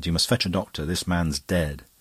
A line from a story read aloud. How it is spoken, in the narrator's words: he said sharply and with command